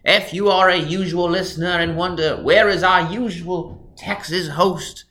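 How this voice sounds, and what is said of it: Deliberately bad fake English accent. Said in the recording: “doing a very terrible English accent for the purpose of this episode”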